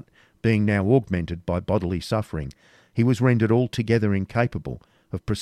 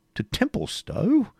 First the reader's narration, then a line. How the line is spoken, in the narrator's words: said his host with surprise